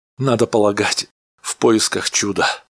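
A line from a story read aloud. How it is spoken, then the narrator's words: Tired answer. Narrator (Russian): ответил Фирмен, устало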